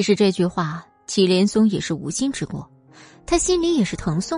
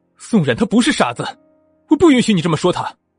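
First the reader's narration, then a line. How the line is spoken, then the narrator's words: Angry. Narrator (Chinese): 听到祁连松这么说，祁军立马就怒了，对他说道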